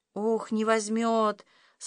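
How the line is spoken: Sighing. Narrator (Russian): Сашка вздохнул

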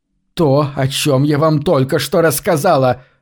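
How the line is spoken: Snapping through gritted teeth. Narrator (Russian): огрызнулась Кассандра, снова скрипнув зубами

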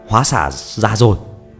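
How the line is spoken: Loud call. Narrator (Vietnamese): Phi Phàm lớn tiếng hô

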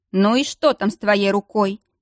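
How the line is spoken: Grumbled. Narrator (Russian): проворчал голос

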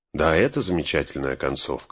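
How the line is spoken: Agreeing. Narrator (Russian): согласился Фродо

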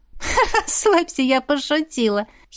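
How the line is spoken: Giggling. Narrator (Russian): хихикнула подруга

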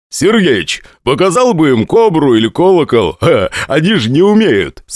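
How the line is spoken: Laughing. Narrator (Russian): смеялся Борзов

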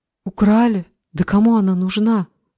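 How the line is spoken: Exclaimed. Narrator (Russian): воскликнула Алиса

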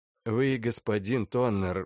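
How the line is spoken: Sighing. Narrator (Russian): вздохнул Рухнов

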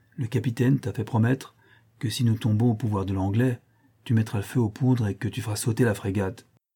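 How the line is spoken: Half-voiced. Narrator (French): repris-je à mi-voix

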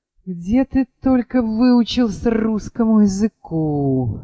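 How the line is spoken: Sighing. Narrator (Russian): вздохнул Егор

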